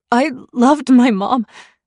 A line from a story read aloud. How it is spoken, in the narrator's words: I said on a choked sob